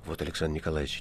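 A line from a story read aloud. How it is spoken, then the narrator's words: Quiet. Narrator (Russian): негромко сказал кто-то в опрятной бородке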